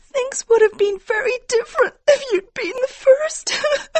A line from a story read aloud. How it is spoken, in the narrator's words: she cried